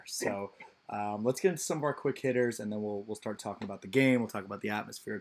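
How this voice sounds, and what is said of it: Hoarse, strained voice. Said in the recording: “my voice is still pretty shot”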